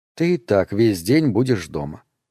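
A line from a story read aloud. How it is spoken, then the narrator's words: Plain. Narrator (Russian): ответила она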